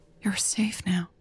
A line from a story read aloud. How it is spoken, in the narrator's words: she whispered